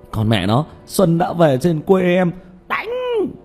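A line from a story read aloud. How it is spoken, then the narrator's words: Loud battle shout. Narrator (Vietnamese): Tiểu Mã hét to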